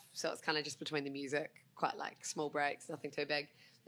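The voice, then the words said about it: New Zealand accent. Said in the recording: “So I'm Kiwi. Don't know if you can tell by my accent. ... I kind of got that.”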